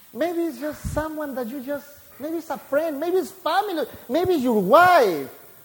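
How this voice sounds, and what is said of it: Heavy Hispanic accent. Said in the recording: “the heavy Hispanic accent... I don't have any accent.”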